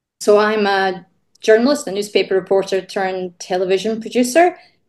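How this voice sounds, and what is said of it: Scottish accent. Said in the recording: “You can probably guess from my accent, I wasn't born in Australia. I'm from Scotland”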